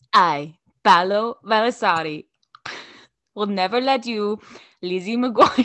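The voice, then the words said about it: Put-on Italian accent. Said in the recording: “I don't want to do an Italian accent ... I'm sorry about the accents”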